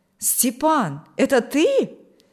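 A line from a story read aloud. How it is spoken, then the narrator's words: Glad exclamation. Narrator (Russian): воскликнул Николай обрадованно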